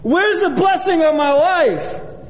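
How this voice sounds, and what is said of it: Yelling. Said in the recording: “I'm yelling,”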